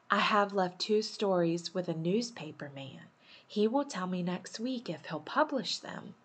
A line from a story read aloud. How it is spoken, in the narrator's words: she whispered